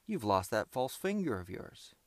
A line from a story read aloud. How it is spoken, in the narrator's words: exclaimed